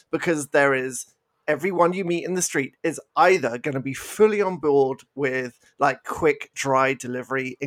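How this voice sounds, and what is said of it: British English accent. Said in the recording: “because I'm British, as you may have picked up from my accent,”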